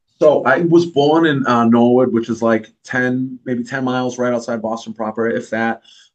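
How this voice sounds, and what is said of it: Mixed southeastern Massachusetts accent. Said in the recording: “southeastern Massachusetts. It's like right on the border of Rhode Island. So I kind of have like a weird fucking accent.”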